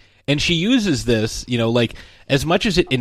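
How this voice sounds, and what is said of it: Usual voice. Nothing is said of it.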